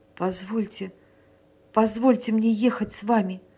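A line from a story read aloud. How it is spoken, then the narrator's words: Faltering, trembling voice. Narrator (Russian): пролепетал Эмиль трепетным голосом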